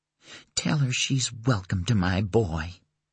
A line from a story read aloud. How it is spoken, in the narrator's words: she added, her voice a husky whisper